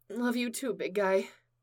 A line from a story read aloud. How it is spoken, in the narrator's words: she mumbled into the joint of the suit